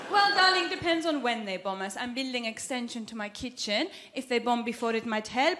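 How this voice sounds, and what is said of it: Generic foreign accent. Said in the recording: “this isn't an Iranian accent. This is a generic foreign accent”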